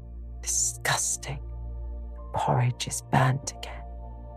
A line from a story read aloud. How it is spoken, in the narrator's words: the tall girls of the first class rose the whispered words